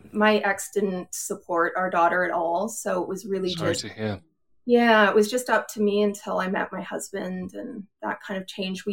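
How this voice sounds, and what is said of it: Canadian accent. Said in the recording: “I'm Canadian ... I noticed so in your accent.”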